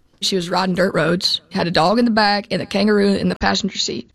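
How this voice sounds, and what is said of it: Distinctive regional accent. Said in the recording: “she's got a great accent”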